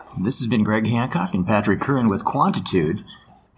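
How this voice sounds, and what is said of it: Smooth radio announcer voice. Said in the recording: “your smooth radio voice”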